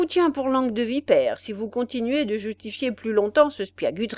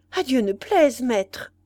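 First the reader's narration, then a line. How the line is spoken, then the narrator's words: Exclamation. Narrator (French): s'écria celui-ci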